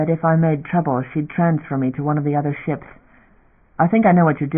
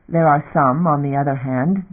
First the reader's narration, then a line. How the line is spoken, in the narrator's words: Damon said bitterly